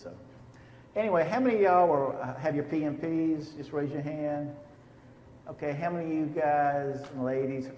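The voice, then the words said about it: Southern US accent. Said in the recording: “I'm from North Carolina, and I've got a Southern accent, so if you don't understand what I'm saying, just raise your hand”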